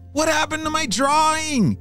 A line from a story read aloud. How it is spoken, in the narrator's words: James shouted